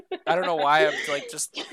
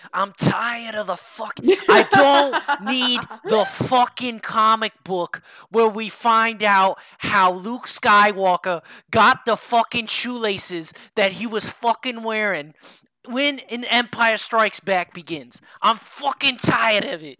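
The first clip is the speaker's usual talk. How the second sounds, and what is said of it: Put-on New Jersey accent. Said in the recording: “I feel like I'm offending you with that accent ... That was meant to be more New Jersey ... I go full blown Guido, or I try to. It's all like shitty”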